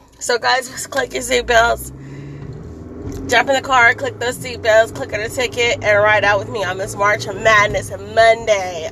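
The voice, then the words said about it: Hoarse, strained voice. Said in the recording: “I just have March Madness hoarse voice... I have no voice... I lost my voice because I am a basketball fan and I'm a screamer... my voice is like so dead this morning”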